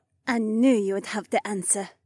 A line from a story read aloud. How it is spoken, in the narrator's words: Heywan smiled sweetly